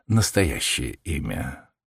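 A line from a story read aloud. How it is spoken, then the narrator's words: Gentle. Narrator (Russian): ласково сказал Холмс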